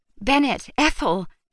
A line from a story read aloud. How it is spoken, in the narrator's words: she exclaimed